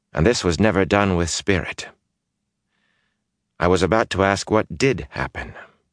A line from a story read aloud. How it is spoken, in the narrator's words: Moraine said coolly